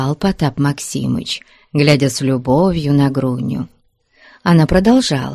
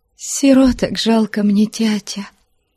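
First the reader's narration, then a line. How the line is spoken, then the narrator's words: Trembling voice. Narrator (Russian): Трепетным голосом ответила девушка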